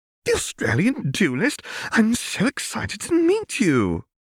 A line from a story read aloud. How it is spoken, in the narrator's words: Tessie, upon meeting Hermione, squealed